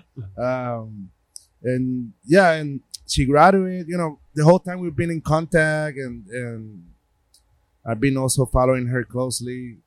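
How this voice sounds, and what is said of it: Puerto Rican accent. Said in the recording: “my Puerto Rican accent, which I'm very proud of”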